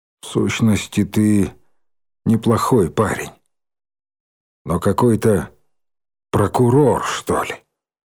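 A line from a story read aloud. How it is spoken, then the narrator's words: Quiet. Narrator (Russian): Николай Николаевич тихо добавил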